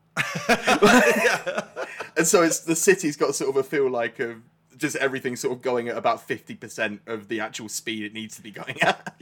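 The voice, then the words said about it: Downcast put-on Birmingham accent. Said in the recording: “Brom, I sort of sound like this ... that's a scary one ... He's very sort of downcast. He's quite depressing, actually ... that accent”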